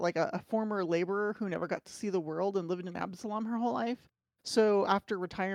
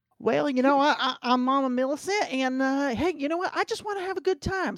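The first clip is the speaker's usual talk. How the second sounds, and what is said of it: Bad put-on Southern accent. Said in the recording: “I do a bad Southern accent ... which which version of a southern accent uh, none of them ... bad southern accent”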